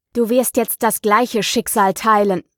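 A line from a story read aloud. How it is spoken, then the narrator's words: Determined grumble. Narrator (German): brummte entschlossen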